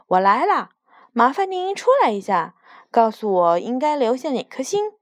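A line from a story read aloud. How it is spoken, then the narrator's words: Loud. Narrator (Chinese): 他大声地说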